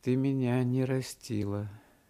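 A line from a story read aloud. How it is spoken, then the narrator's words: Meek and sad. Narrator (Russian): сказал он кротко и грустно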